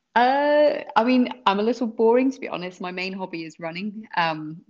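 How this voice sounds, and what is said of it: Foreign, non-American accent. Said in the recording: “You could probably tell from my accent, I'm originally from the old world... never adopted the accent from you guys”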